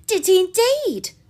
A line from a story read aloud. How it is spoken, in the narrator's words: cried Marianne, with sparkling eyes